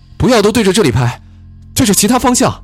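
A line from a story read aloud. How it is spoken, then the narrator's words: Shouting to others. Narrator (Chinese): 李颖对另外四人喊道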